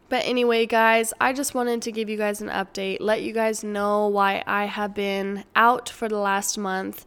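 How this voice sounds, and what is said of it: Croaky, hoarse voice. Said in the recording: “my voice is still croaky”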